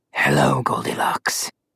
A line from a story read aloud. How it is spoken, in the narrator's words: Malum Claw growled